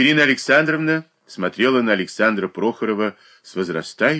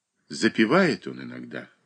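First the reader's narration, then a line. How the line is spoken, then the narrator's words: Sad speech. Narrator (Russian): проговорил печально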